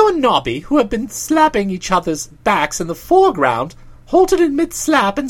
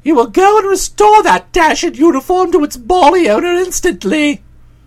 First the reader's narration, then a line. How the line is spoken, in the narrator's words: said ... thundered